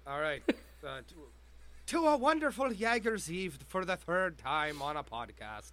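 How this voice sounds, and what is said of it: Put-on Irish accent. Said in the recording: “you've already gone from Scottish to Irish”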